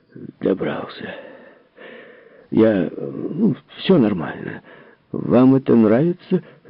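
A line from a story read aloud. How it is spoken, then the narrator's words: Hoarse, journalist. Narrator (Russian): Журналист сказал хрипло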